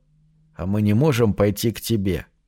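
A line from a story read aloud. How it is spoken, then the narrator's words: Whisper. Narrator (Russian): прошептал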